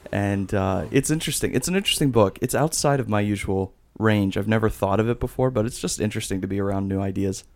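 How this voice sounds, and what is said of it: Strong English accent, warm soothing voice. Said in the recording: “he's got an English, like a strong English accent, and it's just like I could listen to you, and you could lull me to sleep ... warm ... glass of milk of a voice”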